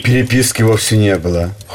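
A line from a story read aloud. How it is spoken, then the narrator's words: Cold interruption. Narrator (Russian): холодно остановил его Шаин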